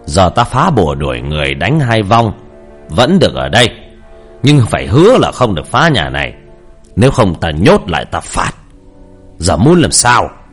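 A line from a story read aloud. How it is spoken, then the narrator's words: Stern. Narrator (Vietnamese): Thầy nghiêm giọng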